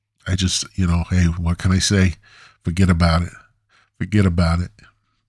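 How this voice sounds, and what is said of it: Poorly done Italian accent. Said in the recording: “I need to have an Italian, like a poorly done Italian accent.”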